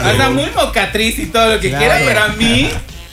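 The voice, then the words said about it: Yucatecan Spanish accent. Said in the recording (Spanish): “lo dices con acento yucateco”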